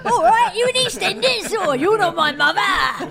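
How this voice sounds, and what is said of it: Put-on Cockney accent. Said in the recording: “talk at you in a Cockney accent.”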